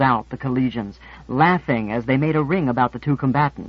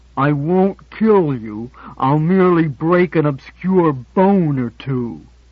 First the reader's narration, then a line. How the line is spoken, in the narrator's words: said Bullwhip through clenched teeth